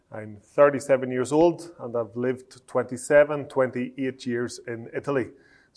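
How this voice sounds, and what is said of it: Slight Northern Irish accent. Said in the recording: “I have retained somewhat of a Northern Irish accent”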